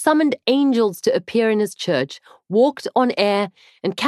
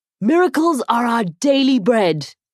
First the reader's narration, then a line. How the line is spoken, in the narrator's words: he shouted into his gold glitter microphone